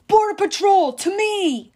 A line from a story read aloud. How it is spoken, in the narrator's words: One of the heroes shouted